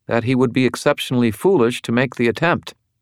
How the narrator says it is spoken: Elaine said, her voice crisp

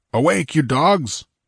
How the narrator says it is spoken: roared Conan

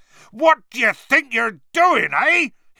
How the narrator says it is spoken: he roared so suddenly

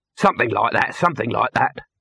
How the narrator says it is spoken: snapped Dibbler

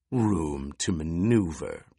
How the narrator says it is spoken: Piter sneered

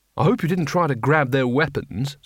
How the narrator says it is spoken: said Rincewind, as sarcastically as he dared

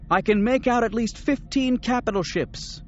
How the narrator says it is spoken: Mara shouted from her position at the controls

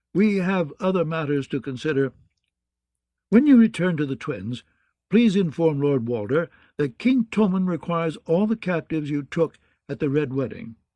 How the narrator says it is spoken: he said in a dry tone

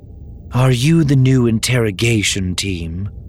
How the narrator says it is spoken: she asked wearily

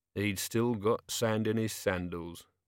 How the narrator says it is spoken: murmured Vimes

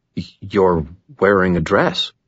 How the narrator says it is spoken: stammer

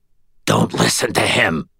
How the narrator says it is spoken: Aristides said through clenched teeth, spraying spittle

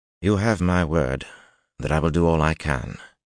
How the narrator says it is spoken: he said wearily

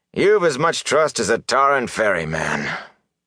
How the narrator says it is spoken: Tam sighed

